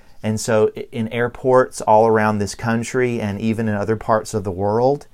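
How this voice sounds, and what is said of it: Southern American accent. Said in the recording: “my Southern accent follows me around everywhere”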